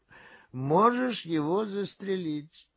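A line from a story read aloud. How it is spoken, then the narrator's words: Bored voice. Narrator (Russian): Креснер сказал скучным голосом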